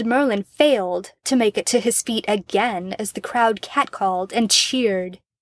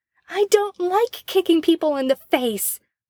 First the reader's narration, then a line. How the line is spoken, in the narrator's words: Merlin yelled in reply